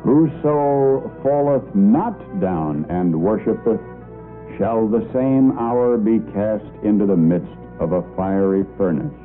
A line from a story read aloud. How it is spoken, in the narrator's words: Slowly and in a loud, clear voice, he said